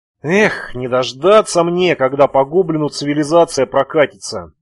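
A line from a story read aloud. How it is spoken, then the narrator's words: Sad sigh. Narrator (Russian): грустно вздохнул Шамиль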